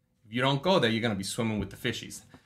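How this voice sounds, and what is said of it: Put-on New York accent. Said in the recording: “New York stories told in a New York accent ... someone who's got a bit of a New York accent”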